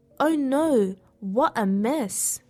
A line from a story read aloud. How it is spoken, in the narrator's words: she exclaimed